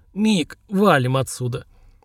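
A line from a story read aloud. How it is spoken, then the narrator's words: Strained hoarse rasp. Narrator (Russian): с усилием прохрипел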